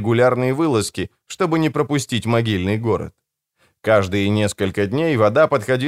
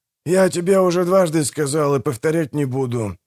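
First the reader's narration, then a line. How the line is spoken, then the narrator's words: Grumbling while chewing. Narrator (Russian): проворчал Манфред, дожевывая финики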